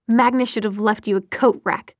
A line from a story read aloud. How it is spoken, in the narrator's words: Clary spat